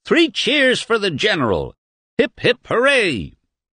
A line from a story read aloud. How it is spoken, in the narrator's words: Professor Emil Staubmeier, the superintendent of schools, popped up to scream